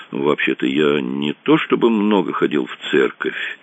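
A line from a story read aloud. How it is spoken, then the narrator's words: Uncertain mumble. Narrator (Russian): неуверенно пробормотал он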